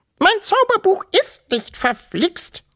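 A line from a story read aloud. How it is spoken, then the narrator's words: Loud squeak. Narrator (German): piepste so laut sie konnte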